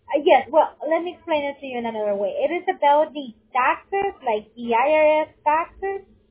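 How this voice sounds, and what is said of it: Strong accent, hard to understand. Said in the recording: “It's so hard for me to make out what you're saying ... what you're saying, I'm not understanding your accent”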